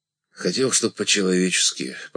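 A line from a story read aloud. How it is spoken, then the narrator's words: Embarrassed mumble. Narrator (Russian): пробормотал смущенный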